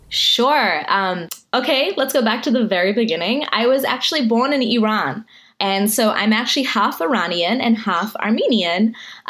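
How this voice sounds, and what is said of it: Hard-to-place mixed accent. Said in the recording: “my accent is this like strange conglomerate of all these different accents ... I can't quite place it”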